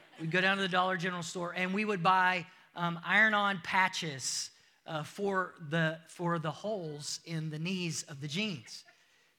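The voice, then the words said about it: American accent. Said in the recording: “if you can't tell from my accent, I'm from the United States”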